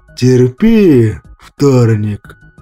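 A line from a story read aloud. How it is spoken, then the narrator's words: Creaky, trembling, pained voice. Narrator (Russian): проскрипел дрожащим голосом Кощей, видимо, испытывающий те же самые болезненные ощущения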